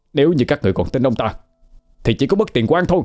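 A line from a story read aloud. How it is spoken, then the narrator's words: Angry. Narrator (Vietnamese): Cậu ta nói với giọng tức giận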